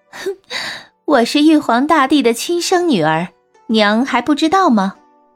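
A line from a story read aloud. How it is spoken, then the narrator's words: Muffled laugh. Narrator (Chinese): 小翠捂着嘴笑道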